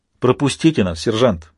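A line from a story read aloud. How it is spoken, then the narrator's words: Angry command. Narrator (Russian): сердито приказал морской пехотинец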